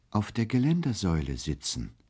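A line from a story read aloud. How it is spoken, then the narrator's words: Gentle reply. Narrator (German): erwiderte er sanft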